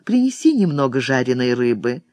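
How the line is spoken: Quiet request. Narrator (Russian): Марико тихонько попросила служанку

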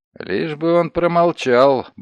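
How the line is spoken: Muttered. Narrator (Russian): буркнул Коломбани

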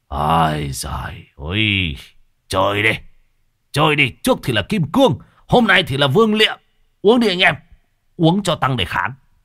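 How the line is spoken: Bellowing. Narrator (Vietnamese): Chiến hữu của thằng thổ thì bắt đầu gào lên

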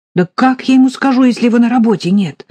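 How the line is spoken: Shouting. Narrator (Russian): закричала Полина

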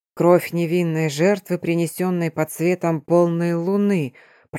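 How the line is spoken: Mutter. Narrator (Russian): пробормотал Эрион

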